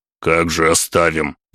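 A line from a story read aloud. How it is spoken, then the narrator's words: Grumbling. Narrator (Russian): пробурчал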